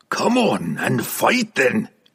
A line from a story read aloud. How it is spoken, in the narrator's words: he roared into the shadows of the endless chasm